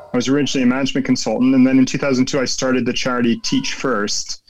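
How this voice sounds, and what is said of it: American accent. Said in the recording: “As you can tell from my accent, maybe I'm originally from America”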